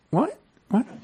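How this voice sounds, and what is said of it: Squeaky high-pitched voice. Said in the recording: “Squeaky voice.”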